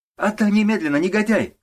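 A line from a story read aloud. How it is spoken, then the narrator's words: Shouting. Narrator (Russian): кричала она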